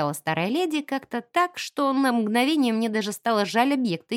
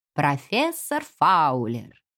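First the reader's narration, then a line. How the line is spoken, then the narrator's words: Creaky, scary witch voice. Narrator (Russian): проскрипела леди Присцилла тоном очень страшной ведьмы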